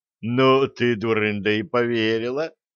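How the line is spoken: Scornful snort. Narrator (Russian): хмыкнул обходчик

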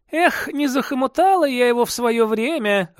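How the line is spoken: Laughing. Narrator (Russian): рассмеялась Диана

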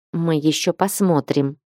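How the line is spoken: Implacable, through teeth. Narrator (Russian): процедила она непримиримо

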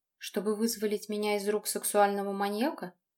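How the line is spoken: Quiet laugh. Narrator (Russian): Женя тихо засмеялся

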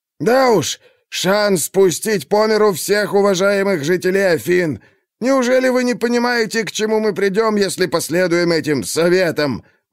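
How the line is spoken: Indignant shout. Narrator (Russian): возмущенно крикнул Гестиодор

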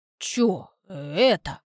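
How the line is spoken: Muttering. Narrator (Russian): обращенное к Насте бормотание Кольки

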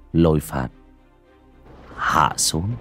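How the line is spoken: Casual soft speech. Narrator (Vietnamese): bác cổ cũng chỉ hời hợt, miệng khẽ nói

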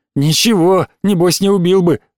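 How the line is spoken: Muttered through teeth, frowning. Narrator (Russian): Митя процедил, сдвинув бровки

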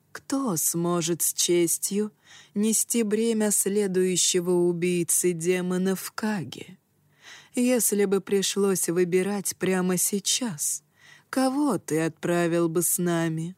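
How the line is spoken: Calm, reluctant reply. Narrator (Russian): Его собеседник неприязненно поморщился, но спокойно ответил

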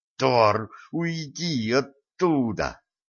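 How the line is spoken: Hissed through earpiece. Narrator (Russian): прошипел в наушнике голос Дашки

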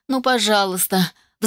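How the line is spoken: Pleading. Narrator (Russian): взмолилась

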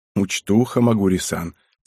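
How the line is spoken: Quiet chuckle. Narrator (Russian): тихонько усмехнулся

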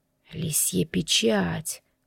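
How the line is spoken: Old man's mutter. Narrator (Russian): пробормотал старец

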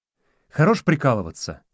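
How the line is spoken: Irritated curt remark. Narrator (Russian): раздраженно бросил Костик

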